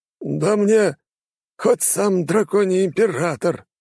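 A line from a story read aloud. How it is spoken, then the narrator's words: Grumbling. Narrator (Russian): заворчал Флавий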